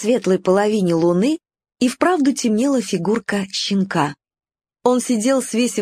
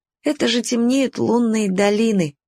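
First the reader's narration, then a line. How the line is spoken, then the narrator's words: Sighing. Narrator (Russian): вздохнул Уголек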